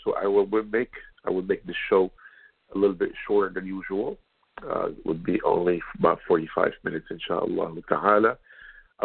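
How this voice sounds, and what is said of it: Sick, under-the-weather voice. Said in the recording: “As you can tell from my voice, I'm a little bit under the weather”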